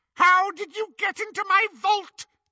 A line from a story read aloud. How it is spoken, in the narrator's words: they heard Bellatrix scream